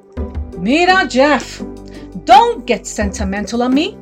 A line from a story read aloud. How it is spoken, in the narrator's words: shouts Anansi